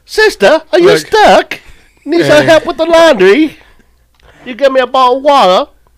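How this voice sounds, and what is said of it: Put-on British accent. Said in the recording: “Hear your British accent... British sentence”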